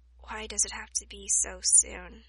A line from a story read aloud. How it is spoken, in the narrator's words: he mumbled, more to himself than Hiyori